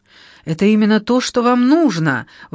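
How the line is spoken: Enthusiastic exclamation. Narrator (Russian): воскликнула с энтузиазмом

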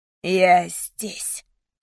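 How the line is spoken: Growling. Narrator (Russian): рычала каждая клеточка моего тела

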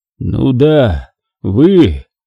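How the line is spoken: Muffled repetition. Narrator (Russian): Так же глухо повторил Синченко

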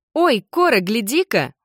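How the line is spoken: Exclaiming as to small child. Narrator (Russian): воскликнула она, словно обращаясь к маленькому ребенку

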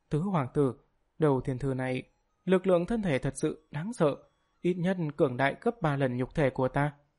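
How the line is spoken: Frightened, trembling voice. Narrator (Vietnamese): Nó sợ hãi, bộ dạng run rẩy nói

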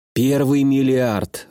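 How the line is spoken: Breathed out. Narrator (Russian): выдохнул я

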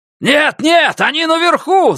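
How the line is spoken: Yelling. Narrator (Russian): заорал ему Бигфут

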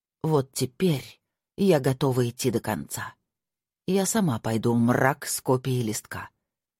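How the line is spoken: Quiet and slow. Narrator (Russian): тихо и медленно произнесла она

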